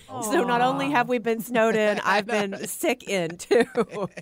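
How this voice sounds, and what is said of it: Nasal, congested voice from a cold. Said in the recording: “I'm really suffering with my, you guys can probably tell ... my voice sounds really nasally. I didn't realize how bad I sounded ... this just sounds snotty and gross.”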